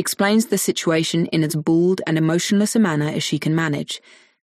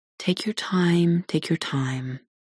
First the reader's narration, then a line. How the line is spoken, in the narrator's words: he says gently